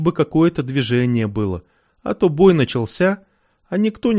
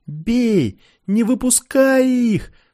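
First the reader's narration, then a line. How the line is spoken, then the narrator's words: Yelling. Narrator (Russian): заорал Рогов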